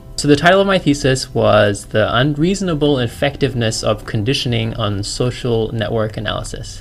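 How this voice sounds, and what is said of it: Australian accent. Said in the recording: “As you can tell, maybe, from my accent, I'm a Chinese-born Australian”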